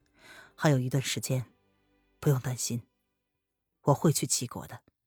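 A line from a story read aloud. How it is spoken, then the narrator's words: Faint smile. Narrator (Chinese): 风清晨 他淡淡一笑，道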